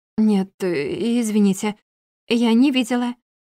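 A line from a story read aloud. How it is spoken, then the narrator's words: Stammering, ashamed. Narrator (Russian): ответила я, слегка запинаясь, чувствуя, как предательски от стыда алеют щёки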